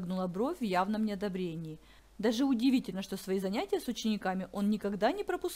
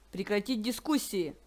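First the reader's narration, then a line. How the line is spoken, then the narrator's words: Stern shout. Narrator (Russian): сурово прикрикнул Нортон-старший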